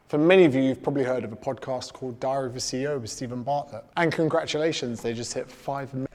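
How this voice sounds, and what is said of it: Australian accent. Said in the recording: “with your Aussie accent ... I think your accent is totally cool”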